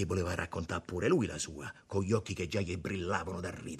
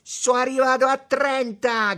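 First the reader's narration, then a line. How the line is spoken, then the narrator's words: Shouting. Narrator (Italian): gridò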